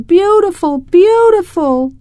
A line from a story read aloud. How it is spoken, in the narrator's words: One lady even shouted